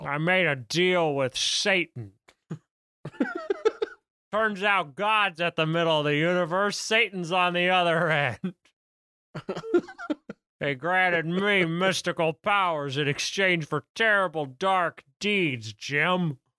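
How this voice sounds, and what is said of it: Yelling. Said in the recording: “I'm yelling”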